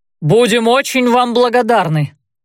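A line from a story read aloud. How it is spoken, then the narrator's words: Shouting back. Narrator (Russian): прокричал в ответ Рэй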